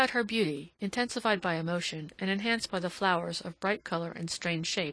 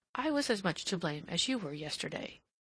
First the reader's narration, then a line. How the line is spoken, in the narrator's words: she said gently